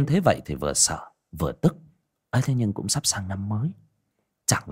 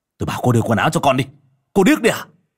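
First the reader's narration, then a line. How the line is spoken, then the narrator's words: Angry scolding. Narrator (Vietnamese): Vũ nạt nộ, gương mặt hiện lên gân xanh gân đỏ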